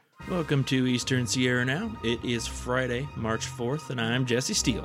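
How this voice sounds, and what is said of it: Slight rural twang accent. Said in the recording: “Did you hear that little twang in there? ... where we're from, we have a little bit of twang. This is kind of how we talk. ... We're like a little”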